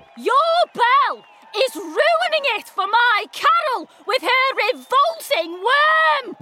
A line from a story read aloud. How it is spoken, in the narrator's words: bellowed Camilla